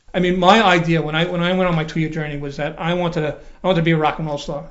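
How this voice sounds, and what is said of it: Slight Brooklyn accent. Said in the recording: “As you can tell from his slight accent, ... is from Brooklyn”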